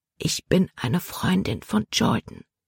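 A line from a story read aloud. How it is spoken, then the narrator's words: Whispered. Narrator (German): flüsterte Libby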